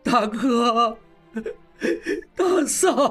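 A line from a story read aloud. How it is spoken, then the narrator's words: Bitter wailing. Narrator (Chinese): 应英痛哭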